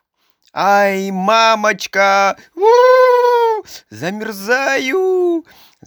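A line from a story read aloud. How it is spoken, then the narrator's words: Screaming and crying. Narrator (Russian): Закричала Женя и стала плакать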